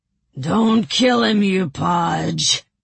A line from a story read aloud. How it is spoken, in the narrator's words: Haskell bellowed, no doubt still thinking of the reward